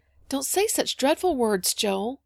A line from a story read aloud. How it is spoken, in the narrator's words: put in Polly nervously